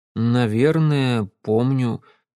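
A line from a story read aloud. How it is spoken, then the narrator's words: Uncertain. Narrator (Russian): неуверенно ответил я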